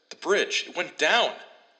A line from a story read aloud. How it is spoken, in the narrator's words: the station attendant yelled